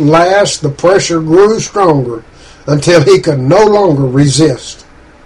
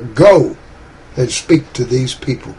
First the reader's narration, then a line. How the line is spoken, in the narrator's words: the Holy Spirit whispered clear and clear